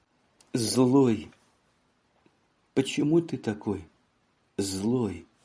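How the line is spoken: Tender tearful mumble. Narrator (Russian): Она с нежностью пробормотала сквозь слезы

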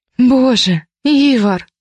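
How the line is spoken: Moaned on exhale. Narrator (Russian): простонала на выдохе

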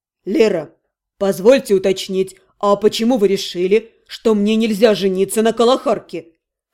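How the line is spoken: Insinuating question. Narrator (Russian): Вкрадчиво задал вопрос мой муж

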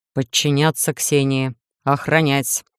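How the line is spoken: Menacing command. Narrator (Russian): грозно приказал Иден

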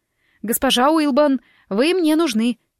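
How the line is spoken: Desperate shout. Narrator (Russian): прокричала я почти в отчаянии

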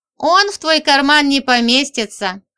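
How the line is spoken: Laughing. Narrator (Russian): хохотнула Женька

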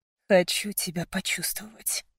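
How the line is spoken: Murmured. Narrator (Russian): пробормотал Мейсон

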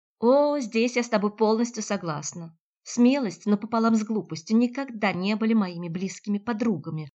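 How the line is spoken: Shout, abruptly breaking off. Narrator (Russian): выкрикнула Наталья и вдруг осеклась

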